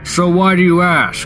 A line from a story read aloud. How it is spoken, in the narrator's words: He snapped